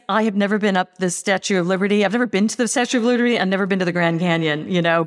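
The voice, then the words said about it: American accent. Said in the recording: “I'm clearly American. You can tell by my accent. American born anyway, also Australian.”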